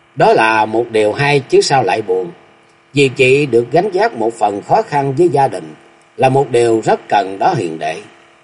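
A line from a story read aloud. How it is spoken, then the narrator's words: Smiling. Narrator (Vietnamese): Thiếu nữ mỉm cười nói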